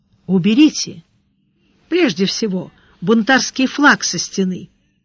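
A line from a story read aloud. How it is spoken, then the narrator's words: Gentle advice. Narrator (Russian): мягко посоветовал Сварог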